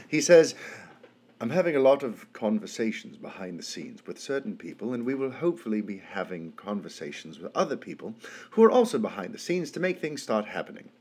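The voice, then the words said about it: Deliberately bad British accent. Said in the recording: “I'm going to do a very bad British accent because I'm over-caffeinated”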